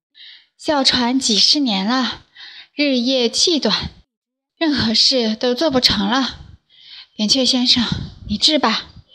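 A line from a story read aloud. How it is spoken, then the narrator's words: Breathless, wheezing woman. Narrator (Chinese): 一位肥美的贵妇在喘气，好不容易缓过气来说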